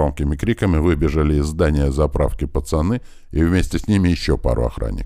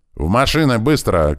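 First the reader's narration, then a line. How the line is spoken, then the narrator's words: Shouting. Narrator (Russian): крикнул я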